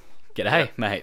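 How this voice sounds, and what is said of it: Put-on Australian accent. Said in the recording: “That was cringeworthy. ... Was that your Australian accent? ... Yeah, that was.”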